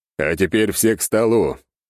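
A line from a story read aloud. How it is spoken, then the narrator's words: Loud announcement. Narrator (Russian): громко заявил я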